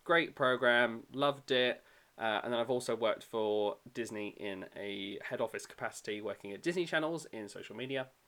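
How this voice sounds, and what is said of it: British accent. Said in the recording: “I worked in the UK pavilion, obviously, because my accent”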